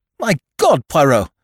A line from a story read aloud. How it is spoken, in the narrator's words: I cried